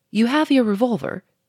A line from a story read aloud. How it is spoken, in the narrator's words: he said sharply